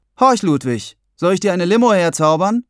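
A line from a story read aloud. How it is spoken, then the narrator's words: Voice calling from behind. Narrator (German): rief hinter mir eine Stimme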